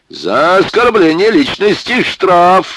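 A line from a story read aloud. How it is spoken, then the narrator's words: Loud half-joking shout. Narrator (Russian): Зычно, не то полушутя, не то всерьез, крикнул Паха Баландин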